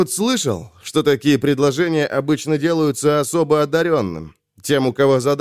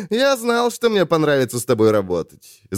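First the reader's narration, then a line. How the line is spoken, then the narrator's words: Laughing. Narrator (Russian): засмеялся Айрунг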